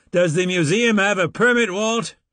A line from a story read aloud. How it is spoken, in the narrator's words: The redhead from the Casper station yelled at me